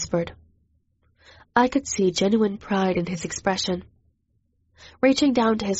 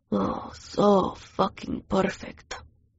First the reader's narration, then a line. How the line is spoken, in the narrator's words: he murmured